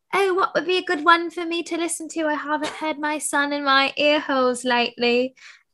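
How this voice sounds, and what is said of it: Put-on South African accent. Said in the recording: “That's my South African accent.”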